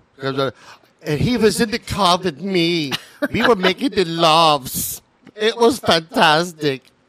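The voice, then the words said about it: Put-on Italian-sounding accent. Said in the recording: “That's Italian. That's not German. ... Was that an Italian one?”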